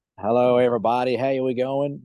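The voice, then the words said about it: Bad put-on American accent. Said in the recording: “that's a terrible American accent.”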